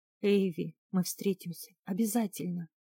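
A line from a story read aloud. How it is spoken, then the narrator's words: Whispering. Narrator (Russian): шептал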